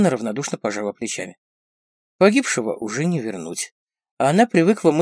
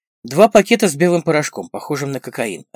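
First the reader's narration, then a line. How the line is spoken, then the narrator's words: Plain. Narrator (Russian): ответил Фикрет Аклер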